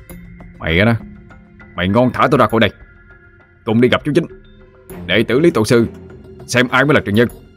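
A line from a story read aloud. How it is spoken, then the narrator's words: Angry shout. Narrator (Vietnamese): Anh quát lên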